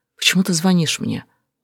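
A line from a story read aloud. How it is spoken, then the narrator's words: Quiet whisper. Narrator (Russian): тихо прошептать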